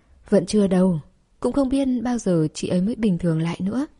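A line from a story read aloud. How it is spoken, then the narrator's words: Sighing, precociously old. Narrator (Vietnamese): Trần Hề à một tiếng, còn như bà cụ non mà thở dài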